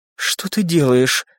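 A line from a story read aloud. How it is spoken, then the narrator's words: Whisper. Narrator (Russian): прошептала она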